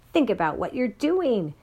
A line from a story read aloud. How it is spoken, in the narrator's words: cried Miss Catherine